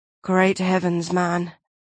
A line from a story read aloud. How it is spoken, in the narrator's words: Mattis muttered